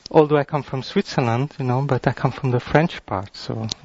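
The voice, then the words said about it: French accent. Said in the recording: “bear with my French accent”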